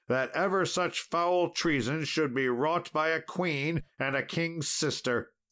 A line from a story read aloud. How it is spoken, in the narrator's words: cried Sir Gawain